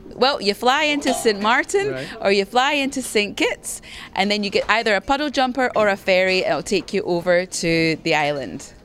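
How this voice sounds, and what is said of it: Scottish accent. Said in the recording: “I heard this accent... I didn't realize the Dutch Caribbean had a Scottish”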